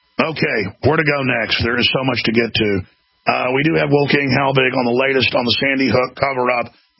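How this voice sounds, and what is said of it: Deep, stuffy congested voice. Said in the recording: “it makes my voice particularly deep and annoying sounding ... when my nose, that actually adds a twang to my speech, is not stopped up”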